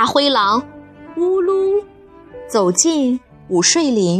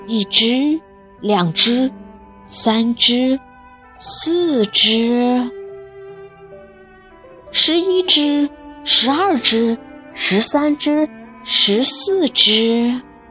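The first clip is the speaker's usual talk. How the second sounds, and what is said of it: Quiet, hushed counting. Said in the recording (Chinese): “他怕吵醒小猪，小声的数了起来”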